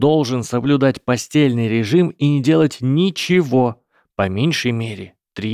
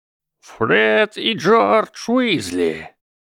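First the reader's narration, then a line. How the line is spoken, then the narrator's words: Thundered. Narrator (Russian): прогремел глаз силы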